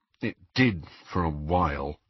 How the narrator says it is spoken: muttered Harry

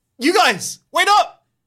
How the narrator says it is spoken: You shout

